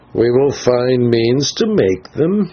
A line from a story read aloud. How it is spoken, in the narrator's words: answered the old man with a hideous chuckle